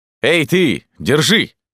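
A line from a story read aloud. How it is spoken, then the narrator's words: Barked shout. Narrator (Russian): гаркнул Арамаис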